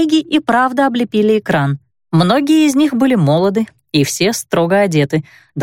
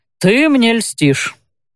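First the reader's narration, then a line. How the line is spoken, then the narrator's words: Grumbling. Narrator (Russian): проворчал Брен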